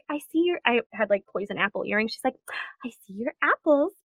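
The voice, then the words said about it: Imitates a Disney princess voice. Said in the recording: “a very good Snow White impression”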